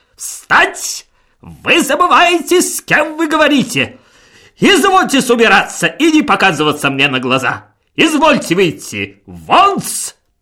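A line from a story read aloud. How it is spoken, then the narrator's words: Very loud shout. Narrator (Russian): Шмыгалов крикнул так громко, что даже дрогнули стекла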